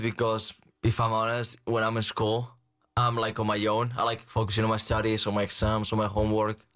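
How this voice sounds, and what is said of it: Spanish accent. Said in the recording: “that accent, they must love that accent ... You have more of a Spanish accent.”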